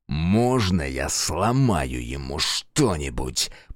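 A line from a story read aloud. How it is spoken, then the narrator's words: Growling. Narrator (Russian): прорычал Фергус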